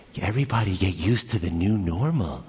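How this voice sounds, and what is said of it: Weird, creepy announcer-style voice. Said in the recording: “it's a weird voice. ... Dude, that's creepy, man.”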